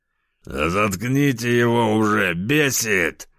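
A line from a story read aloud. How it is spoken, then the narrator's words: Growl. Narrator (Russian): Кто-то прорычал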